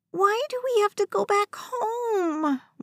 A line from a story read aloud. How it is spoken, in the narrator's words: West whined